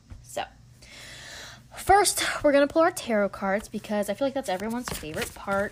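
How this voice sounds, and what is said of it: Stuffy, congested nasal voice. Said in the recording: “if I sound stuffy ... my nose is stuffy right now. So I apologize if you can hear that in my voice or if you hear me sniffing”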